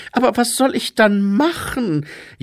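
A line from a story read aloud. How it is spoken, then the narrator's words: Whining. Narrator (German): jammerte er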